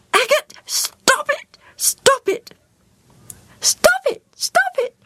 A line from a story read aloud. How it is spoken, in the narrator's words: squealed